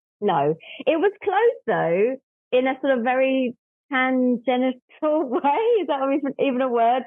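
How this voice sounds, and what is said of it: London English accent. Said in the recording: “our listeners can hear your accent, probably wondering where you're from ... I'm from London”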